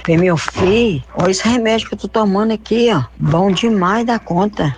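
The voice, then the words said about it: Minas Gerais Brazilian accent. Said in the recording (Portuguese): “E esse sotaque. ... Meu filho, esse sotaquezinho. ... Esse sotaque maravilhoso ... Minas Gerais”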